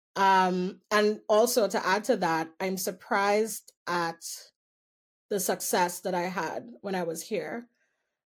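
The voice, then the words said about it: Trinidadian Caribbean accent, somewhat softened. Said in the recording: “my place would always be in Trinidad ... a black immigrant who speaks differently or I feel like my accent is a little more tainted now”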